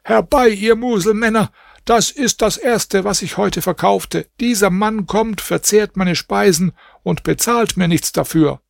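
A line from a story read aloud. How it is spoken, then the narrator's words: Shouting. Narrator (German): der Koch schrie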